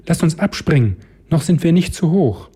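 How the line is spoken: Called out. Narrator (German): Rebecca rief

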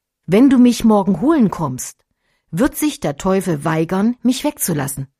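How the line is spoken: Plain. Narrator (German): sagte er

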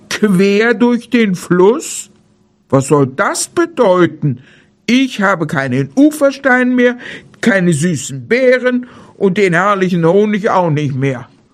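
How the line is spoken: Bear calling out. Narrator (German): rief der Bär

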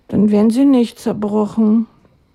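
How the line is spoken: Sighing. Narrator (German): seufzte er

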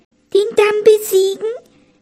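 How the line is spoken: Frightened squeak. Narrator (German): piepste die Haselmaus, stumm vor Schreck

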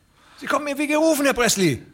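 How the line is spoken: Calling out. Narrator (German): rief der andere

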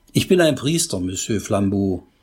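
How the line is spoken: Plain. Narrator (German): sagte Pater Braun

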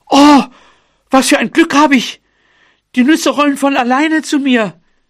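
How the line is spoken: Mouse calling out. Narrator (German): Die Maus rief

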